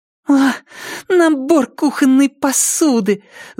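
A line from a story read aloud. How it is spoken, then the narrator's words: Angry exhale. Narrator (Russian): зло выдохнула Триша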